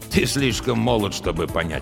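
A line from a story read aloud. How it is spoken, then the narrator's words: Snort. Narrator (Russian): фыркнул Олден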